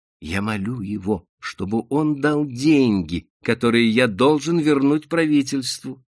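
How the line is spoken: Plain. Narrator (Russian): сказал Ичинго

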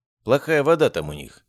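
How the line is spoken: Snorting. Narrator (Russian): хмыкнул я

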